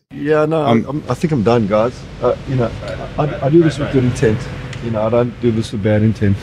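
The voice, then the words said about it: South African accent. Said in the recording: “he's got a South African accent”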